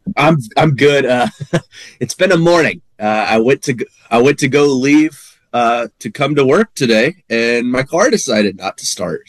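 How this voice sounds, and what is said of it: Congested, stuffy-nosed voice. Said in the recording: “You sound a little congested. ... A little congested”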